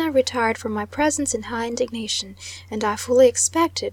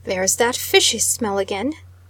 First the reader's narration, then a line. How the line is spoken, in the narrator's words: exclaimed my husband